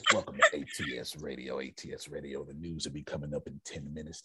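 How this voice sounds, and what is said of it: Radio DJ announcer voice. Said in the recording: “I get on my radio voice.”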